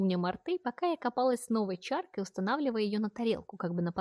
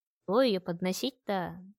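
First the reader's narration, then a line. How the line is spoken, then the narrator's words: Inaudible mutter under breath. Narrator (Russian): начала бурчать я себе под нос неслышно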